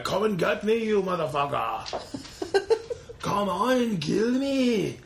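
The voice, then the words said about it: Imitates another person's voice. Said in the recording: “my Arnold impersonation ... I mean, it could be better.”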